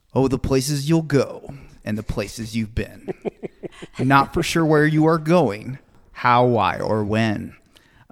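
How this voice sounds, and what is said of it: Smooth radio announcer voice. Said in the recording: “I'll do my impression here of him in that he just got that beautiful radio TV voice.”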